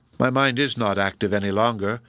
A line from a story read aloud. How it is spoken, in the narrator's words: answered Miriam in a cold, indifferent tone